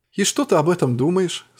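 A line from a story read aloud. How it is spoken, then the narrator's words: Plain. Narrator (Russian): спросила Кин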